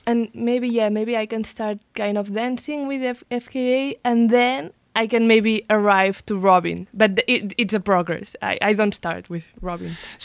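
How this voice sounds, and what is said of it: Catalan-Spanish accented English. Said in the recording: “your native language is Catalan and Spanish ... someone can gather that from my accent ... your English is excellent”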